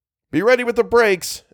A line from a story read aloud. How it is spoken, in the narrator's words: Algernon shouted back